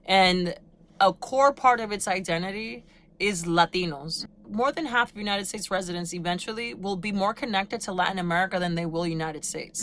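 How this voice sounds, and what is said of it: Latina accent. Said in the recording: “as you can, you know, hear from my accent, I am a Latina”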